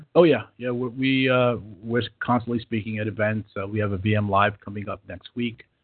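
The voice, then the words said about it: New York accent. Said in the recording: “my accent tells you differently, but I'm originally from New York ... but my accent doesn't go away”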